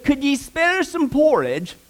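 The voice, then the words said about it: Attempted old English accent. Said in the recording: “I got to work on my accent there ... That's as best as I can do.”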